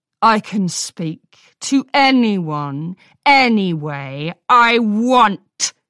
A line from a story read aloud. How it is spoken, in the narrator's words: she shouted